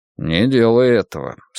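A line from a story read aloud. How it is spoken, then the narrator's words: Calm request. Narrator (Russian): спокойно попросил диджей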